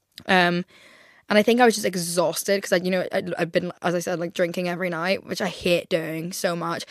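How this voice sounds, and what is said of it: Rough, damaged-sounding voice. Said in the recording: “my voice is like permanently fucked from this illness, like a flu”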